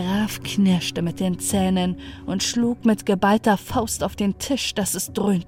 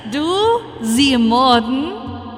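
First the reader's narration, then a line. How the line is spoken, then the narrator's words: Mocking. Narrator (German): spottete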